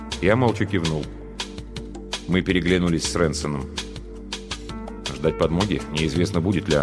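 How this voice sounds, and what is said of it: Usual voice. Nothing is said of it.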